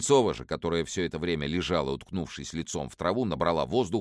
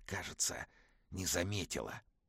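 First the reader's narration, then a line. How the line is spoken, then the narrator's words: Whispered. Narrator (Russian): Семен перевел дух прошептав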